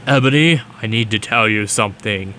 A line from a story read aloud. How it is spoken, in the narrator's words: he said in a serious voice